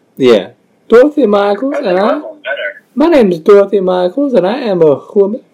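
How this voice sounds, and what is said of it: Imitates another person's voice. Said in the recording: “Is that your Dustin Hoffman impression?”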